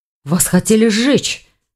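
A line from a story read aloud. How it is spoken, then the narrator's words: Exclamation. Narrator (Russian): воскликнул Ивар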